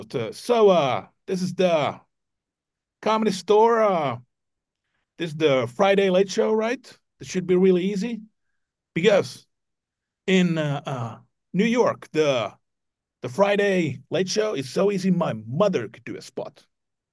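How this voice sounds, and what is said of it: Poor Chris Rock impression. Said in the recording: “my impersonation of Chris Rock. It's, if possible, even worse than your impersonation of a Finnish person.”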